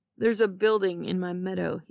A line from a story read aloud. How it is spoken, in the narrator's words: he says crossly